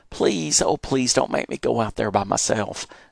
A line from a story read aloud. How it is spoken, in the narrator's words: I whined